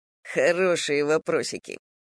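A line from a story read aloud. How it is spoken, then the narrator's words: Chuckling. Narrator (Russian): хохотнул Полуянов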